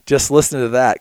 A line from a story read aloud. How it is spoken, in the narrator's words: Conley said